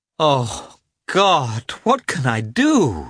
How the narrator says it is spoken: she cried, and began to weep

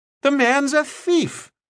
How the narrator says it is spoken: Lauderback cried

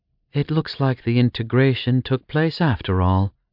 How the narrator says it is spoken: Leandra sighed

